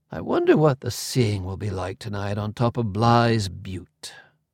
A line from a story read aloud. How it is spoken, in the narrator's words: he sighed